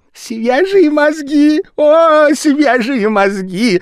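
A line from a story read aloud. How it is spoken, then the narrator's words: Shouted. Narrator (Russian): закричал японец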